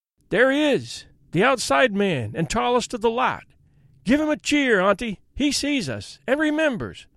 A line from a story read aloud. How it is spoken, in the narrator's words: cried Tom, nearly tumbling off his perch as he waved his hat